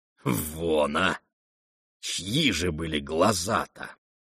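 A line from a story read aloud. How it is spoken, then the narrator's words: Suspicious mutter. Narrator (Russian): подозрительно пробормотал Рогожин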